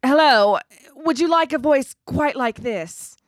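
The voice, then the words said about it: Put-on Transatlantic accent. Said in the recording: “Transatlantic, honey. ... Very Catherine Hepburn.”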